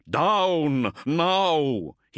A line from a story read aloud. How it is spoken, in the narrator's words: he cried